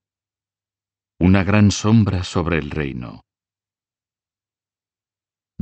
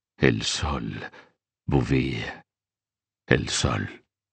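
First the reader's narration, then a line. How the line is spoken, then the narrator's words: Murmuring. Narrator (Spanish): el rey murmuró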